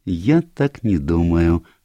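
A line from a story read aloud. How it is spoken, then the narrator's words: Gentle objection. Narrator (Russian): мягко возразил Эркюль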